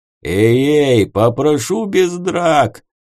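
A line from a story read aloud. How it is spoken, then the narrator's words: Howl. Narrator (Russian): Взвыл Потап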